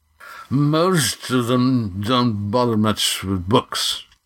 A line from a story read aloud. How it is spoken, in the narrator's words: said Nock, his voice slurred